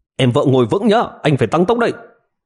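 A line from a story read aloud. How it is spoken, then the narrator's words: Loud yell. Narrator (Vietnamese): Triệu Ngọc hét lớn một tiếng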